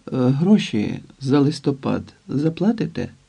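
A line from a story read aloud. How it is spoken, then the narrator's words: Calm question. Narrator (Ukrainian): запитала спокійно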